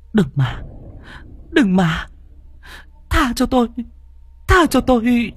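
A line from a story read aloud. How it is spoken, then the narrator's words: Tearful pleading. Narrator (Vietnamese): Miệng của Thi Bân mếu máo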